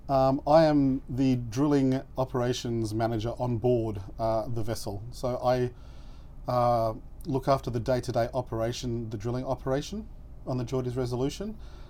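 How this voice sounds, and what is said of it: Australian accent. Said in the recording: “As you can probably tell from my accent, I'm an Australian national.”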